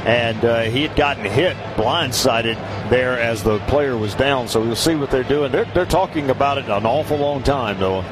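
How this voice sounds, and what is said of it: Southern American accent. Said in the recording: “Don't tell me I'm losing my southern accent ... no, you'll never lose that.”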